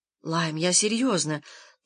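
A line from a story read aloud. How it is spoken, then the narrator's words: Quiet speech. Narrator (Russian): тихо сказала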